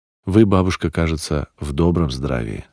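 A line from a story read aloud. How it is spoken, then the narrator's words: Plain. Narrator (Russian): сказал я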